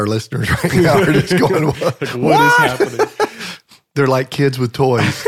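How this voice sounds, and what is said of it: Usual voice. Nothing is said of it.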